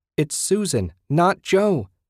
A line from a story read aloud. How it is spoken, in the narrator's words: she shouted